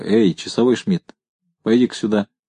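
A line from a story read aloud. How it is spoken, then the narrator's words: Soft call. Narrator (Russian): позвал негромко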